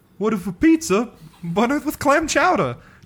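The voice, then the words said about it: Mixed Boston-Italian chef accent. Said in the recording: “Was that a combination of a Boston and Italian accent? ... That was more of like a Jerry Seinfeld almost. ... like with the little Italian chef. ... It was Italian.”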